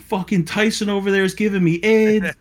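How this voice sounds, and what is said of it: Screaming, shouting voice. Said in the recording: “I'm screaming,”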